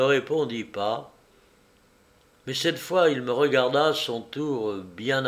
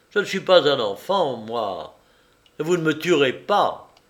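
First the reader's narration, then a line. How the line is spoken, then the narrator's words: Sneering. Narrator (French): repris en ricanant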